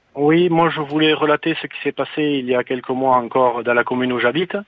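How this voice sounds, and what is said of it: Southwestern French accent. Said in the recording (French): “Accent du sud-ouest”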